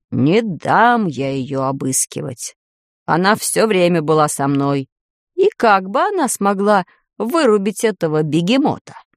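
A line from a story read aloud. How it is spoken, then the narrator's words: Deep bass voice. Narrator (Russian): Пробасил он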